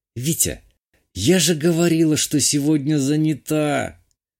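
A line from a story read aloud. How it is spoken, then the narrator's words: Almost a moan. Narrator (Russian): Чуть ли не простонала Юля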